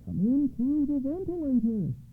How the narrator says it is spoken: cried the old woman in answer

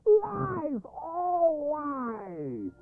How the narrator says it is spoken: yelling

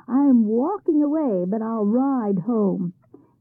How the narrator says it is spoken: He went off very cheerfully, shouting

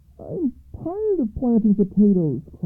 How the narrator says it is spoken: cried her son

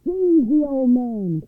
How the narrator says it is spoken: cried the overseer

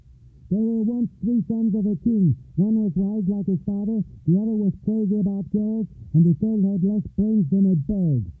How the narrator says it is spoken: waken and shout

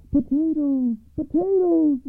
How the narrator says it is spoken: the soldiers began to shout

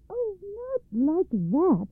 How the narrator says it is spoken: Baba Yaga's daughter cried again

